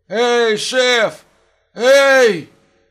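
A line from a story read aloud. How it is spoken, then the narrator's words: Hoarse desperate shout. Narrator (Russian): Хрипло и отчаянно закричал Бринбойм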